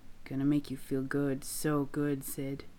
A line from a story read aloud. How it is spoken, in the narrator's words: Gino murmurs into the place on Sid's neck